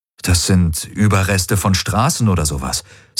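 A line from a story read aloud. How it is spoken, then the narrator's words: Plain. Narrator (German): sagte Rick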